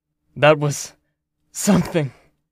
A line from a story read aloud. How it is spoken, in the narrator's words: panted, not enough strength left